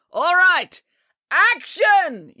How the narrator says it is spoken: yelled the director

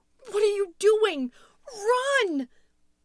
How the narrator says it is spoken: Louise screamed again

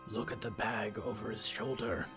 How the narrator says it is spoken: Byrne whispered

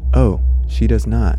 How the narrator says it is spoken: Louisa said

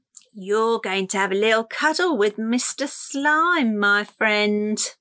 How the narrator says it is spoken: Fleabilly cried

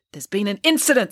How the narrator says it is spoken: snapped the investigator

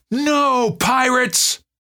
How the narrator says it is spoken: bellowed at the top of her lungs

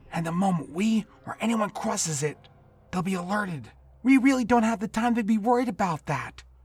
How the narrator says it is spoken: Warren began to plead

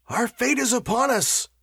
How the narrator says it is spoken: howled Walter

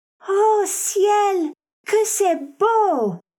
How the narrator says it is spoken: she merely exclaimed

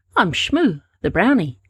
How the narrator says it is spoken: he said in his brightest voice

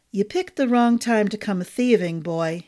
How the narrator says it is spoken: he said, his voice a smooth, low baritone

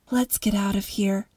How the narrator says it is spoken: she whispered to Mom

